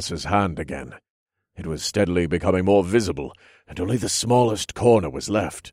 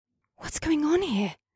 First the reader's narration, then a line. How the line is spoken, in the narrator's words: Asta whispered